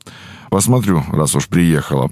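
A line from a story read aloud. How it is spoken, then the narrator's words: Old woman grumbling. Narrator (Russian): проворчала старуха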